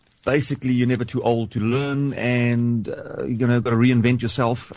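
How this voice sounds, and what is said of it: South African accent. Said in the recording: “especially with your accent ... I'm originally from South Africa in Cape Town”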